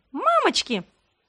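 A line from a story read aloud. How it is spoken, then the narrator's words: Squeaked. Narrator (Russian): пискнула я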